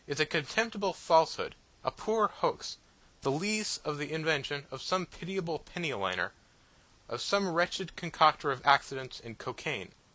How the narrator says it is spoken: I exclaimed

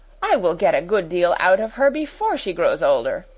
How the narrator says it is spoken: exclaimed Miss Minchin

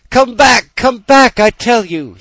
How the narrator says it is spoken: he cried, stamping his foot

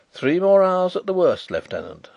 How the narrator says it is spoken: said Carrados cheerfully

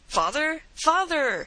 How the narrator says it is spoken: exclaimed a piercing cry from out the mist

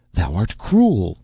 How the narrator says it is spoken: she cried

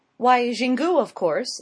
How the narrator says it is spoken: she exclaimed

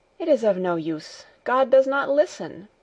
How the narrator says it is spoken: Heidi went on, in an agitated voice

